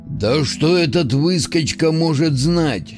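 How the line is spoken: Displeased grumbling. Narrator (Russian): недовольно пробурчал Скоробей

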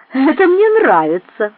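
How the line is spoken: Sarcastic laughter. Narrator (Russian): саркастически захохотала она

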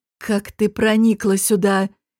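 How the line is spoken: Hoarse. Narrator (Russian): хрипло спросила

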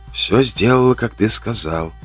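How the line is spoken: Whisper. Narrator (Russian): прошептала она

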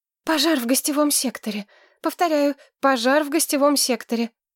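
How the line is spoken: Frightened woman, sobbing. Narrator (Russian): Выдохнул чей-то женский испуганный голос и со всхлипом добавил

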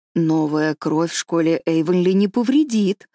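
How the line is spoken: Calm. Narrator (Russian): сказала спокойно Марилла

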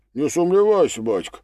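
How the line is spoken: Plain. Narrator (Russian): ответил Бен

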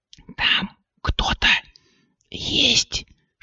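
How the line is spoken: Whisper. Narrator (Russian): шепнула Кристина

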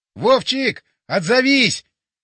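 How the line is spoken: Shouted. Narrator (Russian): Я прокричал

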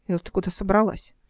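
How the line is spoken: Plain question. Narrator (Russian): спросил Алик

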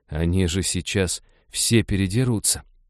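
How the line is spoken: Tragic whisper. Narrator (Russian): трагически прошептала Ивета

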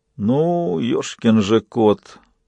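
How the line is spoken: Grumbling. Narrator (Russian): проворчал Фист

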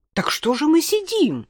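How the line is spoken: Impatient exclamation. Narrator (Russian): нетерпеливо воскликнула Марина

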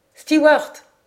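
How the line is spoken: Shout, foreign accent. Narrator (French): cria-t-il avec un accent qui dénotait un étranger

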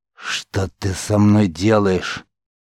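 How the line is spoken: Growled. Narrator (Russian): прорычал маг

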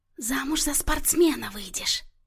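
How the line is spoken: Giggling whisper. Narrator (Russian): прошептала Марианна и хихикнула

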